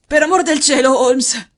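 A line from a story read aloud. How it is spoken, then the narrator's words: Hoarse exclamation. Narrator (Italian): esclamò con voce roca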